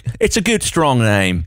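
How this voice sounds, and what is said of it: Weird put-on accent. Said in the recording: “that was a weird accent for that... awful”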